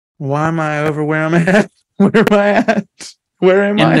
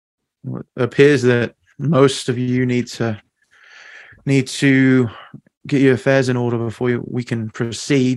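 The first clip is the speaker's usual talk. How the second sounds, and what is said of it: Put-on British accent. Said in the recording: “I wasn't ready to get into this accent yet... British.”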